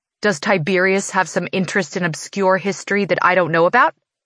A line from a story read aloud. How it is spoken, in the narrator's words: I scoff, the words coming out harsher than usual